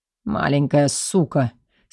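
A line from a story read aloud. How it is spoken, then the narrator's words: Husky male voice. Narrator (Russian): с хрипотцой нарекает он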